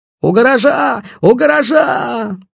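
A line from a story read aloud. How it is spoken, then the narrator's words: Young voice yelling. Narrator (Russian): Орал молодой голос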